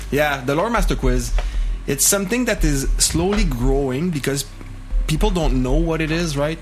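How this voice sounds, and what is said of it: French Canadian accent in English. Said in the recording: “it's an English podcast done by a French Canadian. So, accent, some people find it painful to listen to me”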